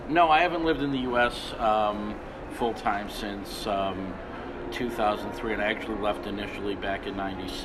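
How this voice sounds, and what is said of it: American accent. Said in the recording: “people are hearing an American accent”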